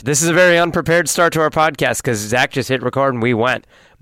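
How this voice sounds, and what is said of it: Voice slightly changed by a cold. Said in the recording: “I'm coming down with a little cold, so if my voice sounds a little different, that's why. I'm not coming down with a sexier, deeper voice.”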